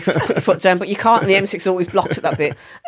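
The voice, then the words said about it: Black Country English accent. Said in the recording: “you've got a Black Country accent”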